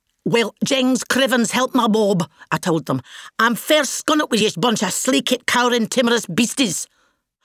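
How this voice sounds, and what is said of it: Broad Scottish accent. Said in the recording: “my lovely Scottish accent”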